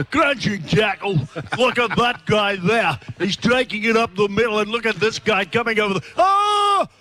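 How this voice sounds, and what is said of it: Impression of commentator Ray Warren. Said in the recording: “the best impersonation you've done over the years and years on the continuous call team is the great rabbi, Ray Warren”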